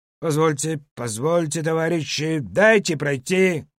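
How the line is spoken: Loud commanding voice. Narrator (Russian): громко говорил Велинов командным голосом, не терпящим возражений

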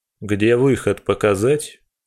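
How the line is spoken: Icy tone. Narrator (Russian): Ледяным тоном интересуюсь я

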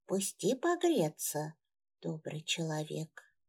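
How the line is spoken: Barely audible old woman's mumble. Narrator (Russian): чуть слышно прошамкала старуха

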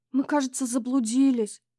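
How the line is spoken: Shaky voice. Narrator (Russian): сказала Таня дрогнувшим голосом

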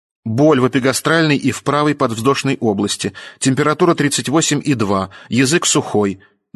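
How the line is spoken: Loud, mechanical report. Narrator (Russian): доложила она механическим громким голосом

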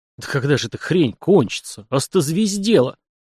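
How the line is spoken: Irritated mutter. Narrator (Russian): стукнувшись плечом о стойку кузова и поморщившись, Сашка буркнул себе под нос

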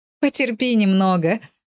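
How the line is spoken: Laughing mother. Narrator (Russian): засмеялась мама

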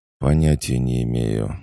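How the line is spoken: Sighing answer. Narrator (Russian): вздохнув, ответил Сик

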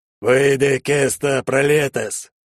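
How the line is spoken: Deep bass, focused incantation. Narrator (Russian): пробасил отец заклинание, сосредоточенно глядя на меня

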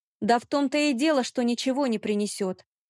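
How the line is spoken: Unrestrained shout. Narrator (Russian): выкрикнула я, не сдержавшись

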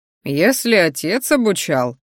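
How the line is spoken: Short chuckle. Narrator (Russian): хохотнул ректор

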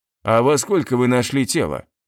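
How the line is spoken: Plain. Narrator (Russian): спросил якут

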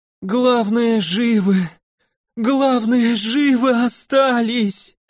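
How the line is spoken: Moaning in burning pain. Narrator (Russian): стонало чумазое существо, катаясь по земле в попытке сбить с себя языки бурого пламени

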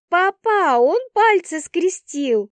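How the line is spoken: Child's yell. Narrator (Russian): вопит Вика

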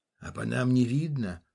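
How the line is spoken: Gruff mutter. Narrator (Russian): буркнул водитель

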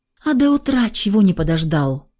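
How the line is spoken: Sighing. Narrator (Russian): вздохнула я

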